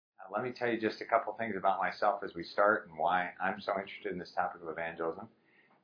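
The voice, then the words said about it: American English accent. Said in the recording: “My accent betrays that I grew up in the United States.”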